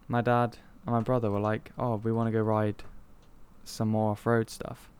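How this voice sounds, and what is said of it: Bristolian English accent. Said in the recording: “Bristolian accent.”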